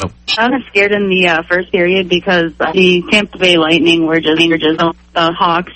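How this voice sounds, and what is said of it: Chicago accent. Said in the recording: “I'm hearing a bit accent out of you... I'm straight from Chicago.”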